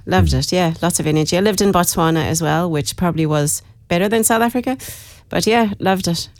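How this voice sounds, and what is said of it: Irish accent with South African influence. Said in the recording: “I'm originally from Dublin. Lived in South Africa for a long time, hence the accent... You got the accent”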